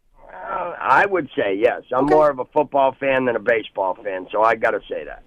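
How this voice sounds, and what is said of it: New England accent. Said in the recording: “I love the accent. It reminds me of home. ... I grew up in Concord, New Hampshire”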